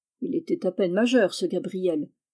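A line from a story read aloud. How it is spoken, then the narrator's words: Grumbled. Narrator (French): grommela-t-il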